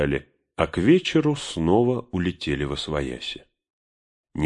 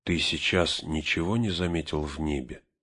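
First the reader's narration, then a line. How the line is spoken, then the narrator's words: Barely audible whisper. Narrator (Russian): еле слышным шепотом спросил он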